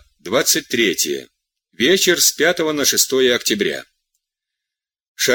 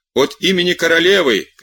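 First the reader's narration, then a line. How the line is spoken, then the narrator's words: Shouting. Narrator (Russian): кричал другой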